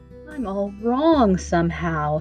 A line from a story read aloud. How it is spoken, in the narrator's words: he said in a weak voice